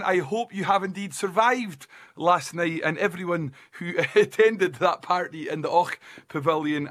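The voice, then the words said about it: Failing, strained voice. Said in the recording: “my voice is going”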